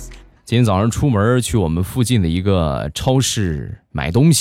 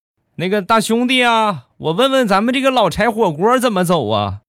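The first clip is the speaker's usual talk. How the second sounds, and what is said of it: Northeastern Chinese accent. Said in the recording (Chinese): “操着东北口音”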